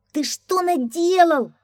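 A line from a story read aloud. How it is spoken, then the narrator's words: Scrawny man shouting. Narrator (Russian): закричал щуплый жулик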